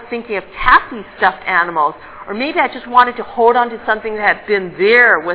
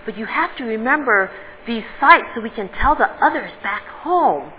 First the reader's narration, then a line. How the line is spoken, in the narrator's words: I whispered in his ear